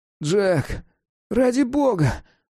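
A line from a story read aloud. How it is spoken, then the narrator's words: Moaning cat. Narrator (Russian): простонал кот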